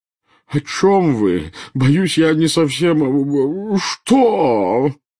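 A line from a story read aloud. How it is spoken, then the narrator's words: Wailing. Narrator (Russian): взвыл премьер-министр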